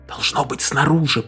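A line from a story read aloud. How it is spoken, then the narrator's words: Whispered. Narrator (Russian): прошептала секретарша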